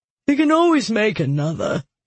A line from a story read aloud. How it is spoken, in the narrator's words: Jester said with a yawn